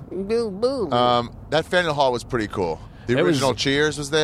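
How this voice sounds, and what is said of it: Usual voice. Nothing is said of it.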